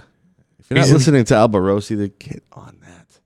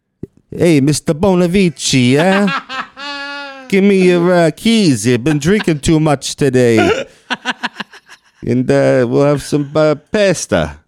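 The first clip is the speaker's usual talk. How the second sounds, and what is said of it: Bad put-on Italian accent. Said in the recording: “try doing an Italian accent ... that's so ... bad”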